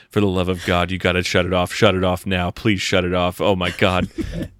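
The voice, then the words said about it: Uncanny imitation of another person's voice. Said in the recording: “Your Tom Atkins impression got uncanny right there.”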